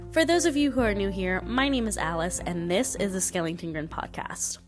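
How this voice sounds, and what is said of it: Slightly nasal, congested voice. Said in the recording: “my voice might sound a little bit different ... recovering from a little bit of a sinus infection ... I still sound a little bit nasally”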